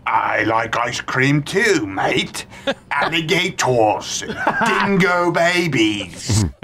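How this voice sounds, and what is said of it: Attempted Australian accent. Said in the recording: “This is ... attempt at an Australian accent.”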